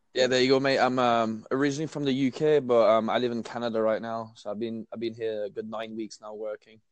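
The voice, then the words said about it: British accent. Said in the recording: “I can tell from your accent”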